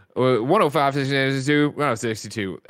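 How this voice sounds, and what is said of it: Imitates female police radio voice. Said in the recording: “it's a female officer going ... that's a bad impression of it”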